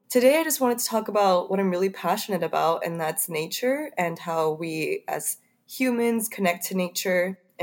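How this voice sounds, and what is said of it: Weird-sounding, unwell voice. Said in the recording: “excuse me if my voice sounds weird. I'm a little under the weather”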